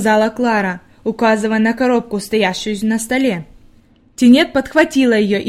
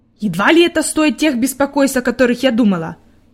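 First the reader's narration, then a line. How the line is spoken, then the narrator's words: Grumbled. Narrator (Russian): пробурчала она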